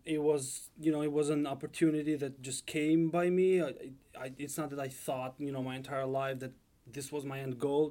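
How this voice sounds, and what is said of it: Albanian accent. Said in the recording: “I hear the accent. ... I'm originally from Albania.”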